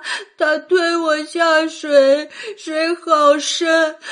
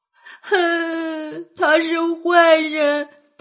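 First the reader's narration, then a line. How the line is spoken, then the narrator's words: Crying complaint. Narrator (Chinese): 胆小懦弱、受人欺的娄玄影，哭着告起状来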